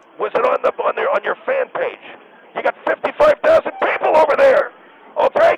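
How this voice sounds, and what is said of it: Panicked, choked-up voice. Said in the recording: “you sound like a panicked child ... You're choking up and sound like a little tiny baby.”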